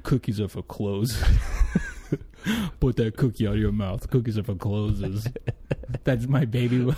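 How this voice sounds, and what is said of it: Deep voice imitation with baby talk. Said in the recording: “your Vin Diesel impression ... there's a little bit of like baby talk to it ... A little baby boss to it”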